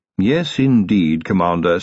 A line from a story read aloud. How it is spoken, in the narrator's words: said Willikins